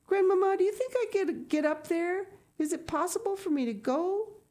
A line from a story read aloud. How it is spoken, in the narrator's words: she asked eagerly